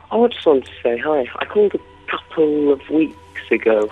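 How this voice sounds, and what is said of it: Strong English accent. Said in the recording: “you've got a very strong English accent.”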